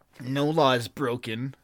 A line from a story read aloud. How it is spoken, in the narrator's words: snarled the Berthunian